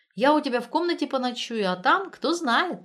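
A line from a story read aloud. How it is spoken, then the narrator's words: Laughing. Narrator (Russian): рассмеялась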